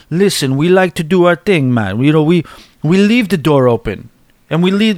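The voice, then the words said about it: Clumsy put-on Jamaican accent. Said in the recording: “I'm butchering a, uh, uh, uh, Jamaican accent”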